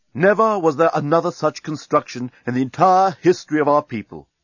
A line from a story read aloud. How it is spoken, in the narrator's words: he used to tell his grandchildren